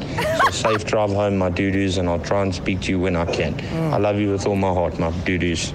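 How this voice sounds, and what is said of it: South African accent. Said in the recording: “I've never loved the South African accent more.”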